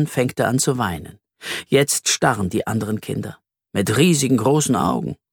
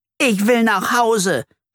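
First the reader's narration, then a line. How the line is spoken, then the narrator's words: Shout. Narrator (German): schreit Flori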